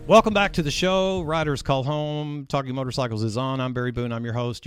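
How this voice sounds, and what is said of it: Polished radio announcer voice. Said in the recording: “I'm using my radio voice.”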